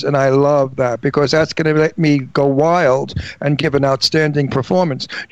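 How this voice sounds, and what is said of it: Long Island New York accent. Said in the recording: “My New York, Long Island accent ... you have a real Long Island, New York accent”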